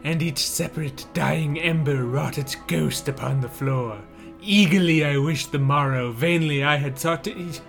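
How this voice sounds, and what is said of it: Vincent Price impression. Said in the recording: “I'm not actually Vincent Price... that perfect impression... I was thinking I had Vincent Price on the podcast”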